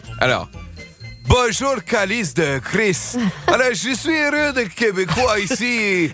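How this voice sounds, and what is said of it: Poor Québécois accent, sounds Russian. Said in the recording (French): “l'accent québécois ... C'est celui que tu sais le moins bien faire ... Et c'est russe.”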